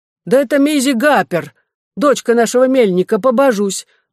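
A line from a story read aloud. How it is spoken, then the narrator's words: Exclaiming. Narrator (Russian): воскликнула Тип Такет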